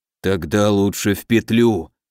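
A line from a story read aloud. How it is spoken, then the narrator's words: Dull, muffled. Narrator (Russian): глухо проговорил Сидоров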